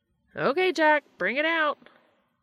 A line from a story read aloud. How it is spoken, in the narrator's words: Gabriel yelled